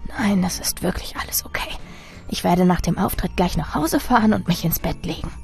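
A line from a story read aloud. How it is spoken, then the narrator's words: Quiet reply. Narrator (German): sprach leise zurück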